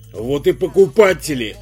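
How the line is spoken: Snorting smirk. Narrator (Russian): хмыкнул Артамонов

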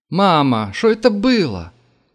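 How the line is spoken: Loud address. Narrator (Russian): громко обратился сразу ко всем присутствующим Валерка

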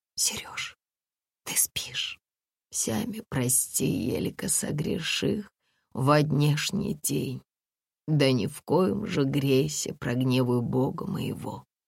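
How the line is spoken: Barely audible whisper. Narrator (Russian): едва слышным шепотом спросила

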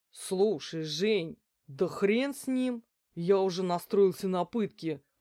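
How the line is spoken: Grumbling. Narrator (Russian): проворчал Виктор

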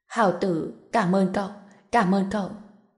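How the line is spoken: Slightly shaky, emotional. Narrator (Vietnamese): Trần Bình tay hơi run rẩy nói

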